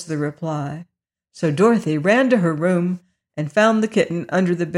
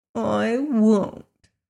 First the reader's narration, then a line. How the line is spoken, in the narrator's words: answered the kitten in a surly voice